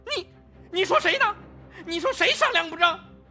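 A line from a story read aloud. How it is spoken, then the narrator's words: Defiant. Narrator (Chinese): 吴婷也不甘示弱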